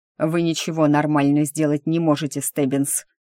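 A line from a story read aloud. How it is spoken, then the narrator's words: Hissed. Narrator (Russian): прошипел брюнет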